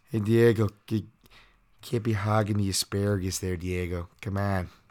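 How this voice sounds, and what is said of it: Terrible put-on Chicago accent. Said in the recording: “Terrible Chicago Bonner accent”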